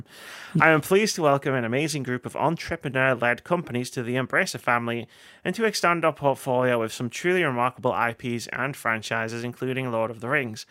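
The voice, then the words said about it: Reads quote in a put-on voice. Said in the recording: “I don't know why I'm doing a voice for him.”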